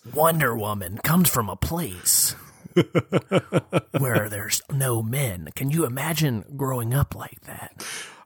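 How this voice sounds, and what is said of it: Imitates another person's voice. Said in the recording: “in your Dan Carlin voice.”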